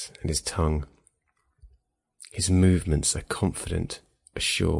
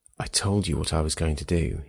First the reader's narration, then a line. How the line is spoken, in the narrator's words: he says